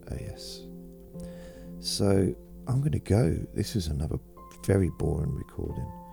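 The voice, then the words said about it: Croaky voice. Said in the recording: “my voice is getting very croaky”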